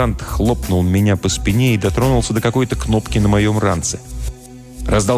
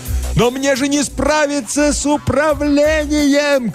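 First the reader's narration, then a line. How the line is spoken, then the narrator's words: Shouting. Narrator (Russian): кричал я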